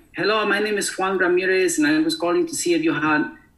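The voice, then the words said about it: Put-on Hispanic accent. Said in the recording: “a Hispanic accent”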